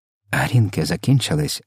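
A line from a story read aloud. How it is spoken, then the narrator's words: Whispered. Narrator (Ukrainian): прошепотів містер Типс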